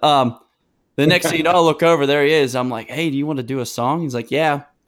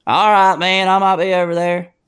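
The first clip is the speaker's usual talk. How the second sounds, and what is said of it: Imitates another person's voice. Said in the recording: “that was a pretty good John Party impression”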